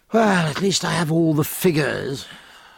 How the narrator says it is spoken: said Jack, sighing

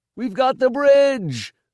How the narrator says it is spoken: the watchers shouted

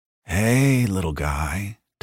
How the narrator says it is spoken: Tully said softly

